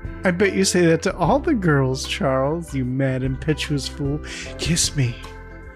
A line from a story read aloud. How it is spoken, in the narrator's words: Alice laughs, saying